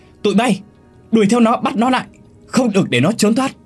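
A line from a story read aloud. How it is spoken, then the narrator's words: Loud shout. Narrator (Vietnamese): Một tên trong nhà hét lớn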